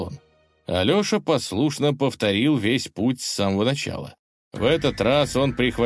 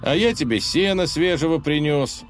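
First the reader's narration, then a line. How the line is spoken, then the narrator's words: Sighing. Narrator (Russian): вздохнул богатырь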